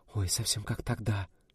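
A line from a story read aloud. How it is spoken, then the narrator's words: Whisper. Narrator (Russian): зашептала Альбина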